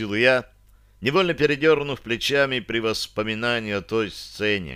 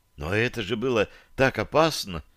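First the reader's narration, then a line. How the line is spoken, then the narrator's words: Breathless exhale. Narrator (Russian): выдохнула Таша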